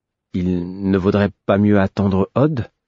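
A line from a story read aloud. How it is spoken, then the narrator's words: Timid, hesitant. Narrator (French): hasardai-je timidement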